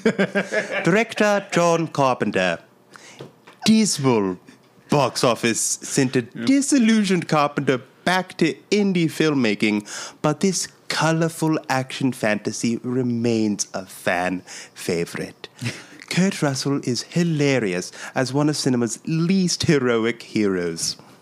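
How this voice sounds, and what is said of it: Masterpiece Theater style accent. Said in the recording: “what'd you think of that accent? ... Beautiful. ... It's pretty good. ... It's very Masterpiece Theater.”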